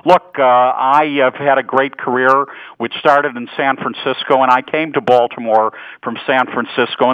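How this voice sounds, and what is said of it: Chicago accent. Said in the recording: “I hear your voice in Chicago ... you've picked up my Chicago accent. One never loses that”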